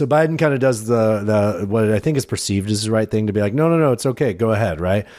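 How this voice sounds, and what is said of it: Usual voice. Nothing is said of it.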